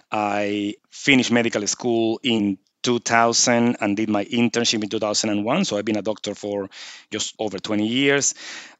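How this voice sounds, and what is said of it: Venezuelan accent. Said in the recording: “I'm originally from Venezuela, as you can probably pick up by the accent.”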